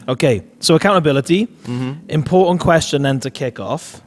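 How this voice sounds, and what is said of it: Croaky, nearly lost voice. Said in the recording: “My voice is going a bit. ... quite croaky this morning. ... I've almost lost my voice. So I was shouting and screaming.”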